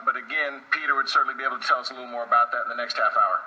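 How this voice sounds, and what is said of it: Standard American accent. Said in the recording (Chinese): “这是典型的美国标准口音”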